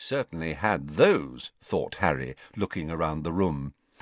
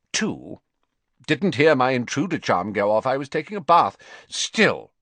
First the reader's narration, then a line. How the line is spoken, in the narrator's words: he added sternly, seeming to pull himself back together again